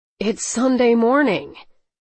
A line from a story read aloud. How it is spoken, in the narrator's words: Carlos sighed irritably